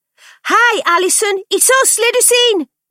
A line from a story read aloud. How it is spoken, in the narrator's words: Frankie shouted through the letterbox when there was no immediate answer